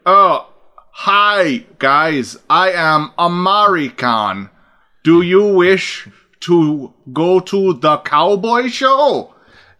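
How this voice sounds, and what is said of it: Deliberately bad fake American accent. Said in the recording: “It's almost always painful when an actor is doing, like, ... always fucking painful.”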